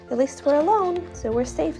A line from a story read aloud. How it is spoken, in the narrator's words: the pea said